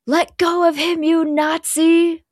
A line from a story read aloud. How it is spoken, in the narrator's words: Holloway screams at Quentin